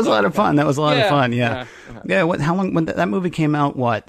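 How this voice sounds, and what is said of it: Usual voice. Nothing is said of it.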